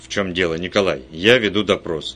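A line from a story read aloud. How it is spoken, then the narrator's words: Stern. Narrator (Russian): строго сказал инспектор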